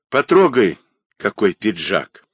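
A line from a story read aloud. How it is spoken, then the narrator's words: Tender offer. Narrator (Russian): ласково предложила она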